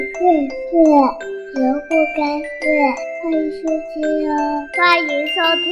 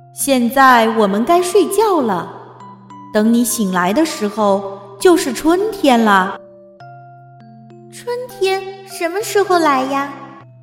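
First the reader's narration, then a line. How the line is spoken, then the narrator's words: Plain. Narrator (Chinese): 奥菲问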